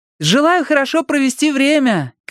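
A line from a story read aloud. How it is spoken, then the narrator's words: Called after someone. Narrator (Russian): крикнула ему вслед Кэтрин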